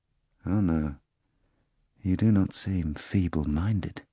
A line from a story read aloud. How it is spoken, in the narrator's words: the procurator said quietly